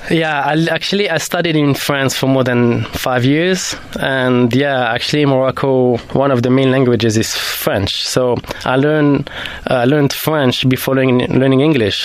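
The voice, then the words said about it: Slight French accent. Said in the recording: “I detect a very beautiful French accent there ... I have this little French accent”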